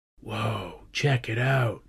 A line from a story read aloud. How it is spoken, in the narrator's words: Rory said in a quiet voice